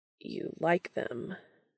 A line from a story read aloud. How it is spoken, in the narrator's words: he says, a hint of that raspy quality that Dean is beginning to associate with an arousal creeping into his voice